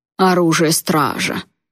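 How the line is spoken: Sour mocking imitation, snort. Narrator (Russian): Кисло передразнил он Райана, пародируя его голос, и фыркнул

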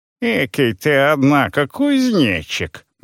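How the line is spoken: Mocking. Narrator (Russian): насмешливо произнес голос

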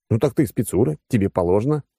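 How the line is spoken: Snorting. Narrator (Russian): хмыкнул я

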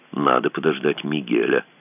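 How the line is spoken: Quiet. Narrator (Russian): сказал он тихо

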